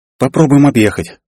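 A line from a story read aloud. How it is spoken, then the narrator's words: Young woman's sigh. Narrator (Russian): вздохнула девушка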